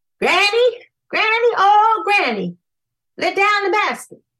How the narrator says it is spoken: Br'er Rabbit got to the bottom of the coconut tree and hollered

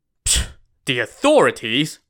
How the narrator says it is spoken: Ran Xiao Wu scoffed again

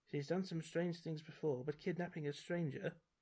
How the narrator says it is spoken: The innkeeper murmurs as if to himself

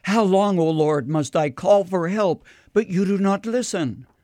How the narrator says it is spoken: Habakkuk, who cried out

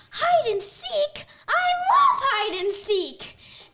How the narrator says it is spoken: this kid goes on to yell

